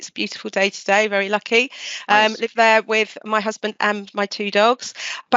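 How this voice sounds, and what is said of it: Southern English accent. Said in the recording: “with this accent. I'm in um, in the UK. I'm in the south of England”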